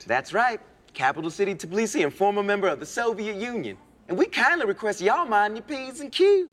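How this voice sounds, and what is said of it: Put-on Southern US Georgia accent. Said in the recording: “do accents in a Georgian, Southeast United States Georgian mm-hmm. accent ... he is just all in on doing a state of Georgia accent”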